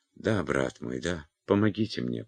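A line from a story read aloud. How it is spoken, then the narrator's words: Muttering. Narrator (Russian): пробормотала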